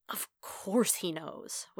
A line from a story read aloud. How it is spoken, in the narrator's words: Wade mutters